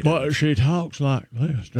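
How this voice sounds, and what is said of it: Put-on Southern American accent. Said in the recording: “I don't know why I'm using the Southern accent.”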